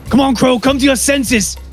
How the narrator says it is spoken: shouting over

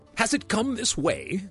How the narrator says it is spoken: gasped the keeper

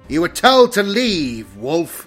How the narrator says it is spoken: boomed the Dark Angel through his vox grill

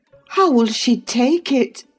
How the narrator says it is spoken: I exclaimed

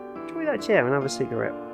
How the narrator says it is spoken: said Lee

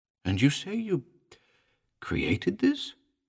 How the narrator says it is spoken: gasped

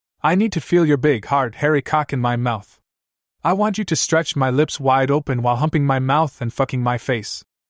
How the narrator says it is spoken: she said

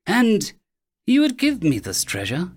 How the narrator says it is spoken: she purred

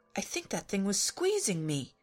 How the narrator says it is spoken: he said indignantly

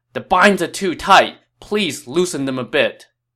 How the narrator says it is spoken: he cried out

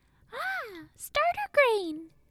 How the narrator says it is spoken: he exclaimed

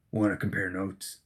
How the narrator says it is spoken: She sighed

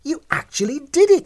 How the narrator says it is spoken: She exclaimed

